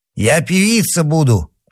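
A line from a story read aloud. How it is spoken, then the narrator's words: Hoarse. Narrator (Russian): прохрипела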